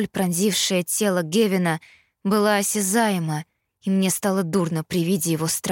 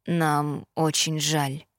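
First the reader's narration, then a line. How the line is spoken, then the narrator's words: Mumble. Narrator (Russian): пробормотал Итан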